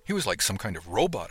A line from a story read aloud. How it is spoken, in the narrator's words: exclaimed quietly